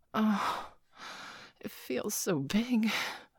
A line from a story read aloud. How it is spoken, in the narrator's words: Peggy gasped